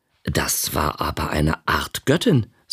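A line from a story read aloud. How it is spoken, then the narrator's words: Plain. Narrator (German): sagte ich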